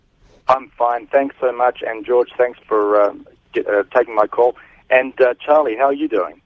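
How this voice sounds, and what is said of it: New Zealand accent. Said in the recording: “He's got a New Zealand accent.”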